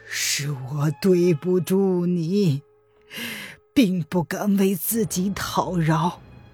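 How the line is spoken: Soft gentle voice. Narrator (Chinese): 黄云在柔声的道

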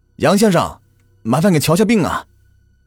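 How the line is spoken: Shouting from outside. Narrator (Chinese): 人们在门外喊着

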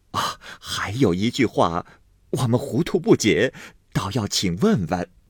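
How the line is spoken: Laughing old women. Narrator (Chinese): 婆子们笑道

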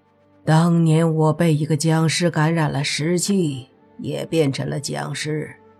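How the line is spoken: Sighing. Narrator (Chinese): 宁无心这时叹了口气，说道

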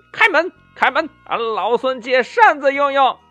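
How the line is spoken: Calling out. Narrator (Chinese): 这悟空呢，叫道

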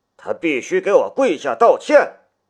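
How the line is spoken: Roaring. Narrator (Chinese): 他 … 吼道

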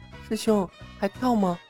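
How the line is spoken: Soft question. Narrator (Chinese): 他轻声问道

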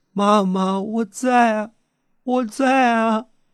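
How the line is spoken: Loud wailing sobs. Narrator (Chinese): 我嚎啕大哭

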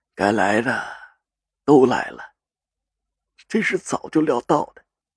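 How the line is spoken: Sighing. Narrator (Chinese): 赵信如叹了口气

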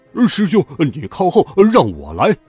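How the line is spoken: Calling out. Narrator (Chinese): 猪八戒赶上前去叫道

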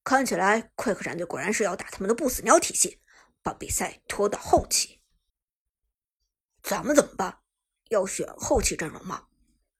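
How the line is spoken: Low-voiced question. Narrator (Chinese): 旺财低声问道

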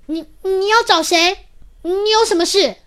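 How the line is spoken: Loud nervous question. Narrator (Chinese): 他鼓起勇气，大声的问

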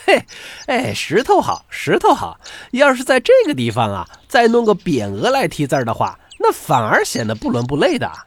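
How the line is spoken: Group laughing. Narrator (Chinese): 大家都笑着说

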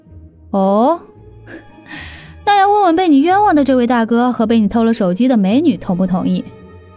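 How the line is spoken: Faint smile. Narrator (Chinese): 长发女孩微微一笑

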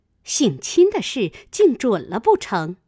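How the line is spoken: Laughing. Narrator (Chinese): 贾琏笑道

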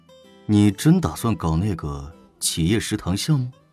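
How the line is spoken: Deep grave voice. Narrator (Chinese): 胡展娇沉声道

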